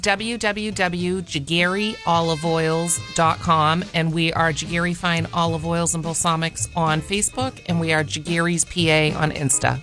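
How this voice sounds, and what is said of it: Boston accent. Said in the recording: “are you from Boston? ... You can hear the accent.”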